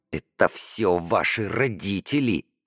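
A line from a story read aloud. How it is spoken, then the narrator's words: Hissed. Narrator (Russian): прошипела Даша Ромке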